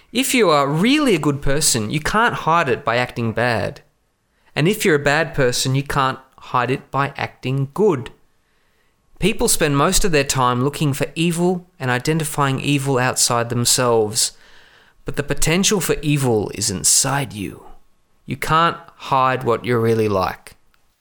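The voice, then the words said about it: Put-on American accent. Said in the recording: “I did an American accent, not a West London accent.”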